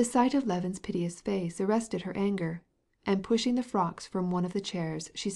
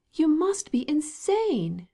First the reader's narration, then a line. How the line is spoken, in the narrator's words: she exclaimed, red with vexation